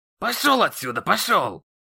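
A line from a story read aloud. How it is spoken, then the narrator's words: Growling. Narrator (Russian): Еще раз прорычал он в мой адрес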